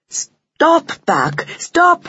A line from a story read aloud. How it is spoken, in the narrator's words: she cried